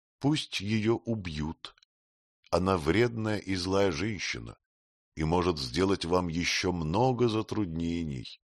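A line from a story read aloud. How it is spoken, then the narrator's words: Simple, calm queen. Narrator (Russian): Королева Клара просто и спокойно сказала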